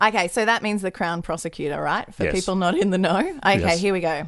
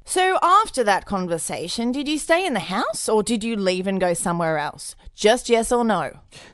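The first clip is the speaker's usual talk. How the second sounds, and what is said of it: Fancy, posh prosecutor character voice. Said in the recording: “prosecutor. So kind of fancy, maybe like peering over the top of my glasses kind of voice? ... chocolate prosecutor voice”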